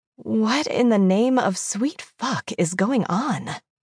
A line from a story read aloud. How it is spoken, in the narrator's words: breathed